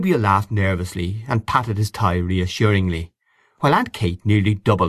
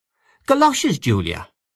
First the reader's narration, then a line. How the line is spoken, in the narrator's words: exclaimed her sister